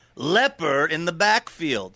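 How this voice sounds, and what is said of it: Poor Phil Hartman impression. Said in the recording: “my horrendous Phil Hartman impression”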